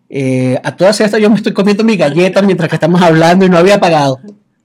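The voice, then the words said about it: Venezuelan Spanish accent. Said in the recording (Spanish): “Escuchas mi acento ... Venezuela, exactamente”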